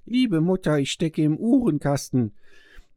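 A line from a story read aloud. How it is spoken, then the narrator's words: Thin small voice calling. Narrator (German): rief eine feine Stimme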